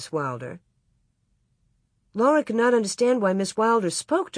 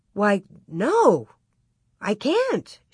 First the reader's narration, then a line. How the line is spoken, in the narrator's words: she exclaimed